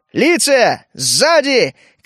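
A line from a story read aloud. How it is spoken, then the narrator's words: Dazed man shouting. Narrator (Russian): крикнул слегка пришедший в себя Ром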